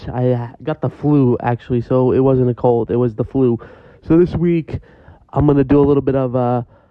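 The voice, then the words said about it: Sick, ill-sounding voice. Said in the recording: “I'm still sick, you can probably hear it in my voice.”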